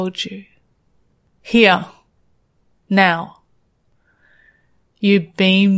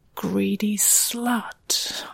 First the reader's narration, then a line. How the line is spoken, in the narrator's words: I hissed